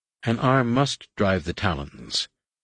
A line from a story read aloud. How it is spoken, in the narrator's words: Nen Yim replied